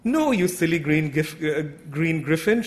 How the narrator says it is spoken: she laughed

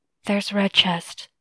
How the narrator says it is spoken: Ke whispered

